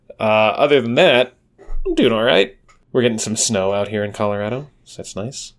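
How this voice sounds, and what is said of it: Slightly stuffy, congested voice. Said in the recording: “I am fighting off a sinus headache. So, listeners, if I sound a little stuffy, that's why.”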